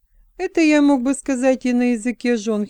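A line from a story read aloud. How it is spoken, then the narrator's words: Giggling. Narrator (Russian): хихикнул человек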